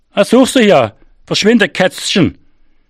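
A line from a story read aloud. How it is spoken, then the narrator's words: Calling after. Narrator (German): rief er mir nach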